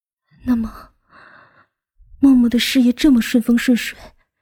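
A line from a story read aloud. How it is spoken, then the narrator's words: Choked, holding back tears. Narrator (Chinese): 莫云熙努力的稳住了情绪，声音却带着哽咽的道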